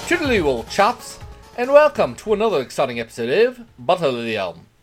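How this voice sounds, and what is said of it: Inconsistent put-on British accent. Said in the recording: “I'm not going to attempt a British accent because God knows what that was ... You just switched from like, you know, British to Cockney to like, I don't even know what.”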